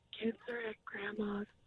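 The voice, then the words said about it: Whispering. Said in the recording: “you've got to whisper it to us.”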